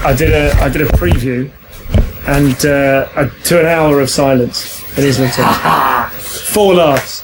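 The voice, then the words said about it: Worn, rough voice. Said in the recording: “my voice is a little bit rubbish”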